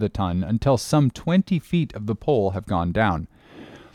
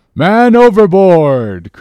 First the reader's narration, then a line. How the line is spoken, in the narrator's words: cried Dago